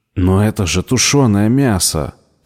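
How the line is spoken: Angry exclamation. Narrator (Russian): сердито воскликнул он

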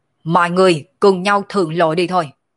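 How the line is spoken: Laughing shout. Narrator (Vietnamese): cười ha ha, thân thể lăng không quát lên nói

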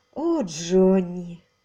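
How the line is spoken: Sad woman. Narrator (Russian): сказала она печально

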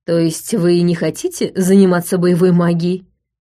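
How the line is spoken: Plain. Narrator (Russian): спросил Джошуа Лотт

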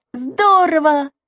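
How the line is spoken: Exclaiming. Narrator (Russian): воскликнул Саша

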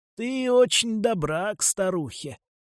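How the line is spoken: Wheezy. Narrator (Russian): просипел он

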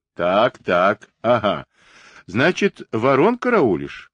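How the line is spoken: Merry laughter. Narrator (Russian): Ковалев задорно хохотал, грызя белыми крепкими зубами куриную ногу

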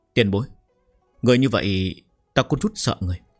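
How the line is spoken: Trembling, faltering voice. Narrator (Vietnamese): miệng càng không nói nên lời, run rẩy nói

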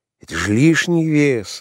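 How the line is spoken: Sigh. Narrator (Russian): вздохнул он

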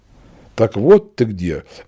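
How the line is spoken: Indignant. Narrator (Russian): возмущенно проговорила княжна

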